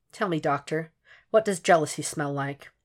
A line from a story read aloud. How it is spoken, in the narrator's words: Will calmly insists